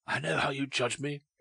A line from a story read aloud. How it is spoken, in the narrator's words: she said hoarsely